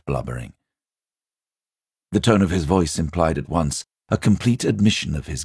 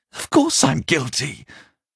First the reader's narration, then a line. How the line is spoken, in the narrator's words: cried Parsons with a servile glance at the telescreen